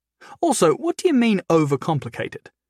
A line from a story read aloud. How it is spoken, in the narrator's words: Clive chuckled